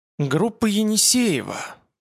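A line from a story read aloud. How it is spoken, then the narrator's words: Tense voice reading aloud. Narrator (Russian): прочел Петр напряженным голосом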